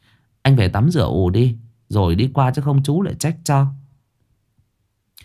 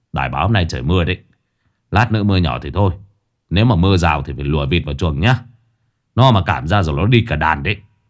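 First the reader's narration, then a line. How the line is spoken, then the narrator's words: Grumbling. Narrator (Vietnamese): anh Kiên đã cằn nhằn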